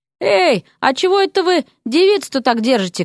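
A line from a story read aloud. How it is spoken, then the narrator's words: Shouting after someone. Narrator (Russian): крикнул им вслед мастер Сигизмунд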